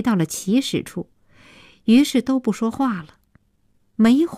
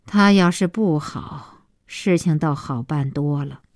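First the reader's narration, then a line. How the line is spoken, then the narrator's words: Long sigh. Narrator (Chinese): 小西妈长叹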